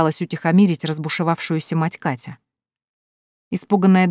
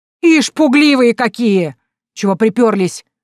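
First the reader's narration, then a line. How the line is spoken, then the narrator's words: Shout. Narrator (Russian): кричала она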